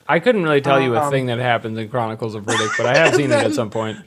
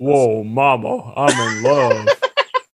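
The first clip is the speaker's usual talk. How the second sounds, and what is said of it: Imitates another person's voice. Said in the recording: “great Vin Diesel impression... That's fantastic.”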